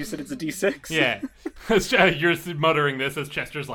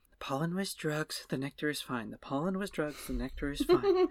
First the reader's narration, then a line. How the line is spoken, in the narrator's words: he's sort of muttering to himself